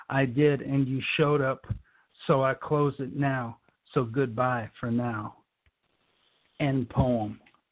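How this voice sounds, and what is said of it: Out of breath, breathless speech. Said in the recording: “Woo! That is a mouthful. I'm out of breath.”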